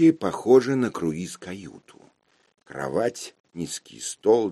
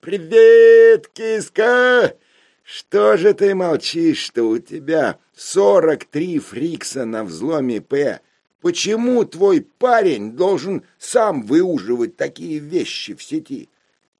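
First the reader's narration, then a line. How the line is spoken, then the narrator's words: Cheerful loud yell. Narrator (Russian): И бодро заорал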